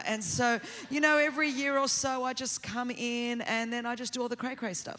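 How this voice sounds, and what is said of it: Australian accent. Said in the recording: “every church needs a crazy aunt from Australia ... who is this woman with the accent? I'm your crazy aunt from down under”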